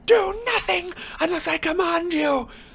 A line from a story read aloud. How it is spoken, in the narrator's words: Voldemort shouted to the Death Eaters